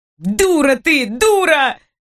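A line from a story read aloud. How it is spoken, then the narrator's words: Sudden hurt shout. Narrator (Russian): Вдруг закричал он с обидой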